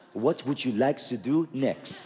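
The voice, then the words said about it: Put-on French accent. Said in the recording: “You've developed a French accent.”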